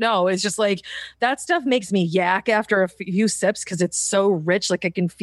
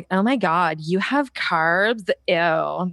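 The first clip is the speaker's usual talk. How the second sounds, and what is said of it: Valley Girl voice. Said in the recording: “you did a great Valley Girl impersonation”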